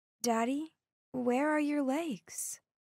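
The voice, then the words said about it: Small childlike voice. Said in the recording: “in my little voice”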